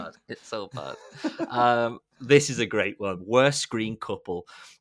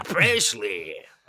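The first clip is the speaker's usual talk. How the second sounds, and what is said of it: Terrible imitated Dutch accent. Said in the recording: “That was a terrible Dutch accent.”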